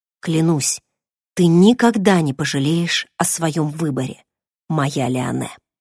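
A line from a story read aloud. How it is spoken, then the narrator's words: Tender whisper. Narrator (Russian): ракшанец прошептал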